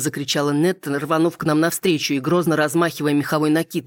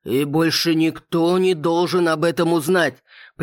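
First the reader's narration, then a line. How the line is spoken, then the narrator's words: Father's warning growl. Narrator (Russian): предупреждающе рыкнул отец Эйрин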